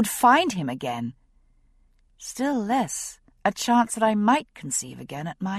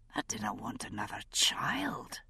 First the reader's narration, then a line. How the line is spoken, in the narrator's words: he whispered